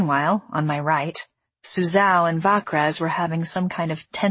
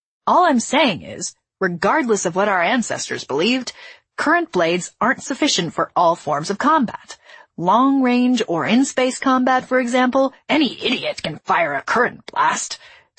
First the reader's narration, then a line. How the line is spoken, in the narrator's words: Suzao snapped